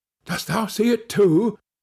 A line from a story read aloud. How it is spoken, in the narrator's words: said his companion in a startled tone